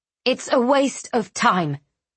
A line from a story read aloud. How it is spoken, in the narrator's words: she spat